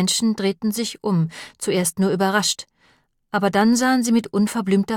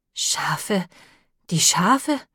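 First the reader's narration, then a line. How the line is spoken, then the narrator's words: Panted. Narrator (German): keuchte Ham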